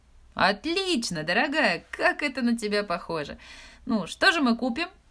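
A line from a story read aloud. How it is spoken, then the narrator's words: Joyful exclamation. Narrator (Russian): радостно воскликнула Джо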